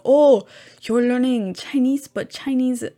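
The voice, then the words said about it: Bad put-on French accent. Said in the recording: “that's a very bad French accent”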